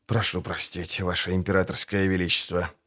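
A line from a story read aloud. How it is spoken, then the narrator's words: Hiccuping astrologer muttering. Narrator (Russian): икнув пробормотал астролог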